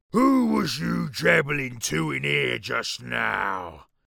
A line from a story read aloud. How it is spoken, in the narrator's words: boomed